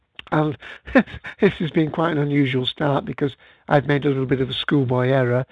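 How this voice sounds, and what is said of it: British accent. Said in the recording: “as you perhaps can tell from my voice, I'm in the UK”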